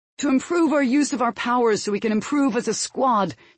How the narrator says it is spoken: shouted Butch

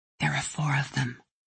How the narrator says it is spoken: she whispers

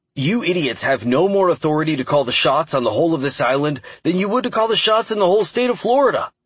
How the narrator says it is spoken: he snapped after several failed attempts to get any information out of them

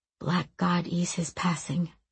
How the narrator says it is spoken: he murmured

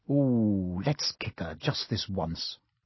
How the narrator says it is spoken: Ron whispered in Harry's ear

